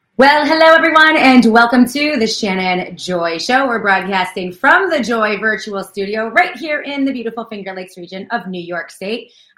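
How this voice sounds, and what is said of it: Talking very loudly. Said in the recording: “I'm talking so loud,”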